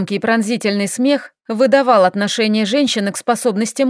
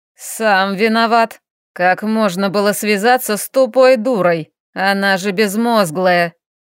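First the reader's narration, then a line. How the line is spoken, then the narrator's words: Creaky old woman's voice. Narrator (Russian): проскрипела старая женщина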